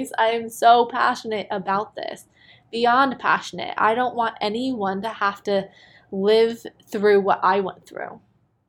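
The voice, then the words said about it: Excited, enthusiastic voice. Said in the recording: “I am so ridiculously excited. If you can't tell from my voice”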